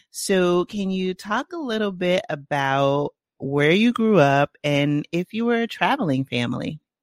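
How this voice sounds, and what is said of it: Bronx accent. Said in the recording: “my Bronx accent”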